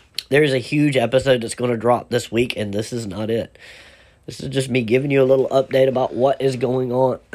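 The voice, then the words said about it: Sick, hoarse voice. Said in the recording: “I don't know if you can hear in my voice. ... is sick. Actually, really sick.”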